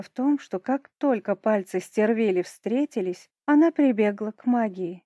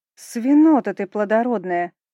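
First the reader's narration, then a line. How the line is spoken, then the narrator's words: Straining growl. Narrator (Russian): прорычала я, дергаясь и силясь избавиться от оков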